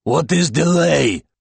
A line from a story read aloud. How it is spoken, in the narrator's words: He rasps